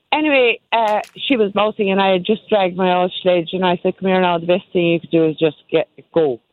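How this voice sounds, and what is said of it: Strong Kerry Irish accent. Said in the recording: “I have all my Kerry accent out today.”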